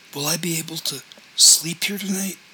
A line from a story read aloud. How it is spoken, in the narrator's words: said in a voice that was strangely soft and raspy and thick